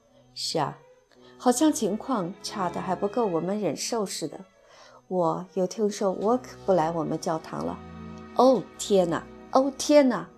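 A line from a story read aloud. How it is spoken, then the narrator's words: Repeated sighing. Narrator (Chinese): 格洛夫小姐连连叹息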